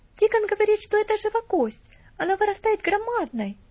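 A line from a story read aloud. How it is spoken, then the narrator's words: Exclaimed. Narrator (Russian): воскликнула мисс Мэри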